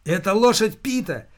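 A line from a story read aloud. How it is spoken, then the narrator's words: Shouted. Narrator (Russian): закричал рейнджер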